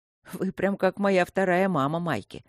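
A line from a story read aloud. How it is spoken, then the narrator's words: Mocking. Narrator (Russian): насмешливо проговорил Люк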